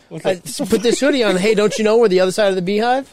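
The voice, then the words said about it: Slight put-on accent. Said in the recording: “Why the fucking accent? ... You did it with a little accent.”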